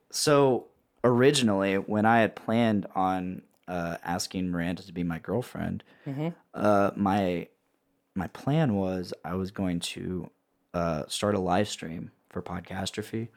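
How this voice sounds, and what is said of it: Hoarse voice. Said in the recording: “The nerves made me sing kind of improperly, so my voice is kind of hoarse now.”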